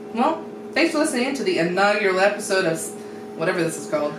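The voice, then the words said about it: Radio announcer voice. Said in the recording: “Oh, there's a radio voice.”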